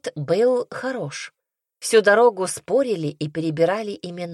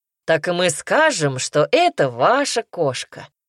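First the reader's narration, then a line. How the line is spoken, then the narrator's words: Snorting chuckle. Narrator (Russian): хмыкнул Ермол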